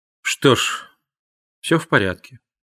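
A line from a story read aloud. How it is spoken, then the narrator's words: Quiet. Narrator (Russian): негромко сказал Роквелл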